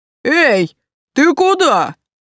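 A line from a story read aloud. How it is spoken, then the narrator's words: Yelling. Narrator (Russian): вопил мне Виктор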